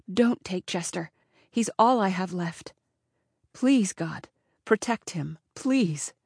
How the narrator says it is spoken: she whispered

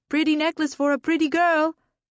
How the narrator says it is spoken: Street vendors shouted for our attention

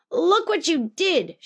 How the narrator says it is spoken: shouted Brother

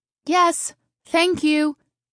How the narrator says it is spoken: Taryn shouted matter-of-factly

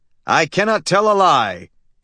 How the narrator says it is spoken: intoned his father, George Lamchop

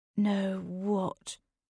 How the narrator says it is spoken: My voice sounded sickly, even to my ears

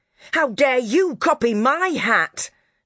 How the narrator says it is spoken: Dora roared

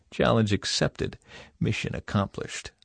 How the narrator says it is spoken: Michael ... quietly replied

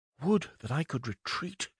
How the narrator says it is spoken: whispered

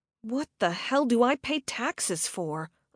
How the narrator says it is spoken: I muttered

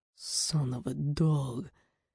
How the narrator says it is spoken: Rorik growled softly

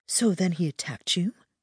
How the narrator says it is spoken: asked in a hushed tone, her eyes bright

